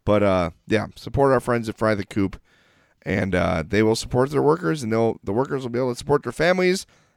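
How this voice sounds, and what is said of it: Congested, stuffy voice. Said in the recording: “I could really use someone to get some of this congestion out of my head. I'm sorry my voice is so horrible.”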